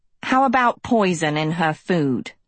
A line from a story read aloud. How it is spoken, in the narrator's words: Hester spat